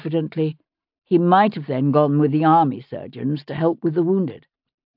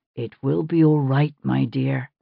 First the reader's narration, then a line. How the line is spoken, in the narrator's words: he said softly